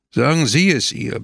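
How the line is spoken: Hard commanding voice. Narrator (German): befahl Pepone mit harter Stimme

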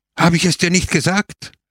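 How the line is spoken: Shouting. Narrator (German): schrie er

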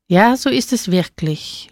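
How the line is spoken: Slurred, clumsy tongue. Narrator (German): lallte er mit ungelenkter Zunge

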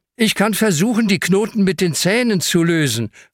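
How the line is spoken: Calls out. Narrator (German): ruft Hanna

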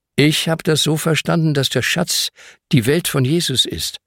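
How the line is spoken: Plain. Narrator (German): sagt Ben

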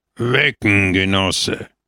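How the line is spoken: Grumbled, broken Italian. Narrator (German): brummte im schlechtesten Italienisch

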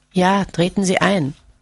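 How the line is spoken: Weak, tired reply. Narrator (German): Johannes erwiderte mit matter Stimme

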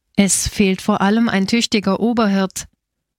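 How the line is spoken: Plain. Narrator (German): antwortete Stepan Kurtev

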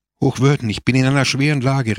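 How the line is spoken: Called out. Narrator (German): rief er

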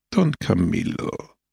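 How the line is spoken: Gentle reply. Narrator (German): erwiderte Christus sanft

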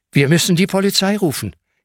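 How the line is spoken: Gasping. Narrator (German): japst Hanna

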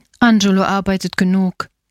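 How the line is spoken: Plain. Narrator (German): sagte die Bäuerin

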